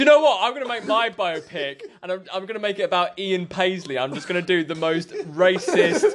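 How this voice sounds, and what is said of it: Usual voice. Nothing is said of it.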